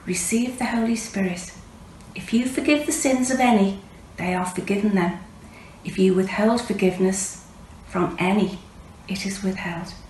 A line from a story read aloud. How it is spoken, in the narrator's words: he breathed on them and said to them